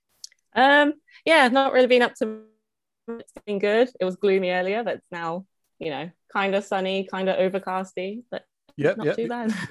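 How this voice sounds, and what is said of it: English accent, not Canadian. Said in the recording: “you don't sound Canadian ... I was born and raised in England”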